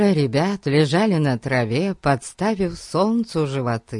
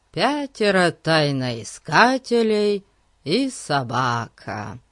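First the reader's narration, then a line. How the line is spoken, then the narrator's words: Drawl. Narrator (Russian): протянул Ларри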